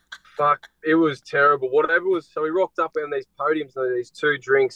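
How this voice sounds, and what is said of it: Speaks with a noticeable accent. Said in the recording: “It sounds different with your accent”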